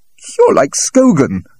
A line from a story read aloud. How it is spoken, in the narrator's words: cried Dennis bitterly